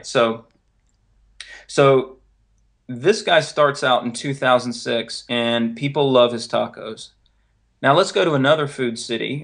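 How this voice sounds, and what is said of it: North Carolina Southern accent. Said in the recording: “You might have noticed the accent by now. I'm originally from North Carolina”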